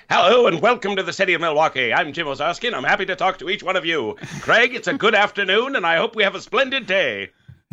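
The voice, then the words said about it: 1920s transatlantic old-time radio accent. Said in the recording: “old-timey radio voices ... do the rest of the show in the transatlantic accent ... a 1920s transatlantic radio guy”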